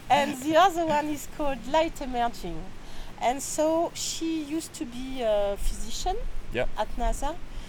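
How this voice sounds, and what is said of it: French-accented English. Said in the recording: “sorry, my French accent.”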